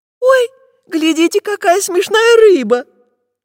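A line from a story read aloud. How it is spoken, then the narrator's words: Squeaky voice. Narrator (Russian): пропищала Настенька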